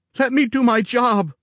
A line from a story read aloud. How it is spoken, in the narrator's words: pleaded